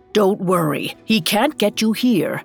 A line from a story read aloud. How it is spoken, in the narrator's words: she said